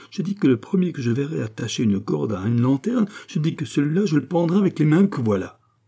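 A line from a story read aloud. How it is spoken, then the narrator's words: Trembling exclamation. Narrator (French): s'écria Bio tout tremblant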